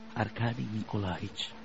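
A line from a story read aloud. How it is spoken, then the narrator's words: Grave whisper. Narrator (Italian): le suggerì sottovoce Vasily Ivanovich con gravità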